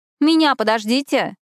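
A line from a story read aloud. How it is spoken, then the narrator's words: Shouting. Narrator (Russian): крикнула нам в спины Эшли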